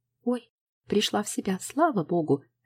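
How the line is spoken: Joyful. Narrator (Russian): радостно Любовь Васильевна

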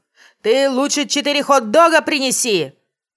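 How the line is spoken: Shouting after someone. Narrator (Russian): прокричал он ей вслед

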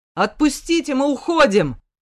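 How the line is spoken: Bellowing at full volume. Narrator (Russian): Заорал во всю глотку

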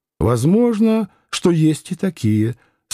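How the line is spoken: Calm agreement. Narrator (Russian): спокойно согласилась она

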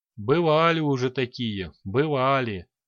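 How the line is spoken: Muffled, hollow voice. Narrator (Russian): глухо произнес Лич

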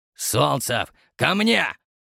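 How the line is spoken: Loud bark. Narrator (Russian): гаркнул Твердохлебов

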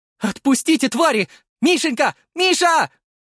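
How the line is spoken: Mother screaming. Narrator (Russian): кричала мама

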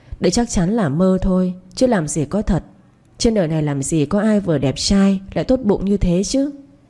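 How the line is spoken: Muttering. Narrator (Vietnamese): Cô lẩm bẩm

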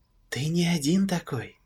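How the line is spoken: Sad whisper. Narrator (Russian): шепнул голос грустно

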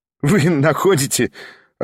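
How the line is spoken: Laughing. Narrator (Russian): рассмеялся Кириллов

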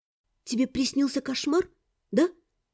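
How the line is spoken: Quiet question. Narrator (Russian): негромко спросила я

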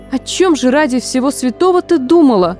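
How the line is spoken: Dismayed exclamation. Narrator (Russian): воскликнула Фанни, увидев, с чем вернулась Вениша

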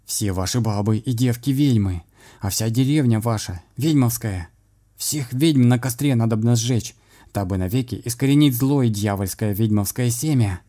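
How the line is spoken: Shouting priest. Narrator (Russian): поп прокричал

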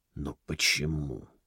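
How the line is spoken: Strained, forced out. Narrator (Russian): только и смог выдавить из себя Белос

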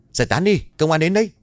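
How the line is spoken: Hurried man shouting loudly. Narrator (Vietnamese): một người đàn ông hối hả chạy vào rồi hét lớn

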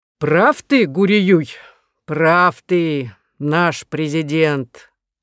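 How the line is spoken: Deep guttural reply. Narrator (Russian): отозвался маршал Самсуний утробным голосом

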